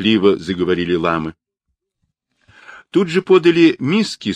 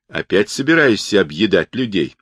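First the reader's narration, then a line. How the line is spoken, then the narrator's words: Angry rebuke. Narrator (Russian): сердито осадил его Сунь Укун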